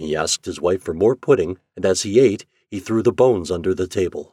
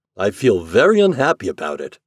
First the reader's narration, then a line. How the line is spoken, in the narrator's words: said the husband